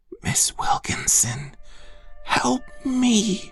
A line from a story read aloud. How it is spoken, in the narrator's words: I whispered